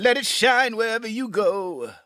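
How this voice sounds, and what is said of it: Sings imitating another person's voice. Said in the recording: “his only impression he does ... it's the only impression he does well”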